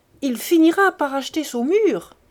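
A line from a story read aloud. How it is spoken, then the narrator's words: Exclaimed. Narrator (French): s'écriait un troisième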